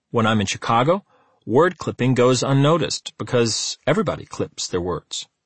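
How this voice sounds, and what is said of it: Chicago accent, clipped words. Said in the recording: “I have a Chicago accent, and I tend to clip my words.”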